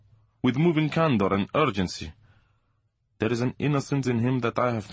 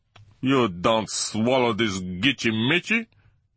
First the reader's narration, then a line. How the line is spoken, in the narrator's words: he kept roaring across to Opsley